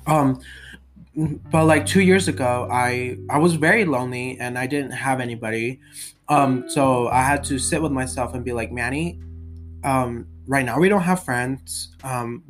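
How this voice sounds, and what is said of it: Sick-sounding voice. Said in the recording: “This is probably just how my voice gets like this. ... I was sick, so I apologize.”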